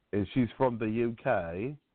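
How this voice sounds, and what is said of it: Put-on British accent. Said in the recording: “Why you have to say it like that? ... my British accent ... You got a problem with my British accent”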